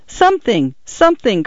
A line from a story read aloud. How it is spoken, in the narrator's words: cried Paula